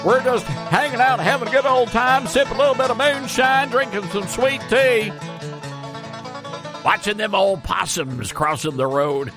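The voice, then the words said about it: Fake hillbilly accent. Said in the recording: “that, ladies and gentlemen, is what we call faux-billy. It's a fake hillbilly”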